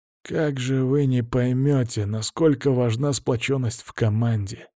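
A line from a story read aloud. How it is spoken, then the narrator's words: Quiet reply. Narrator (Russian): уже тихо ответил он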